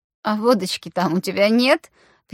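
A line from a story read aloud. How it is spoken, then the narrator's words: Drunken laughter into crying. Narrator (Russian): пьяно засмеялась и тут же продолжила плакать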